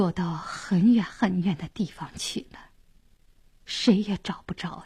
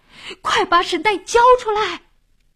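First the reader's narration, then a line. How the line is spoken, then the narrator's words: Loudest shout. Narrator (Chinese): 老王喊的声音最响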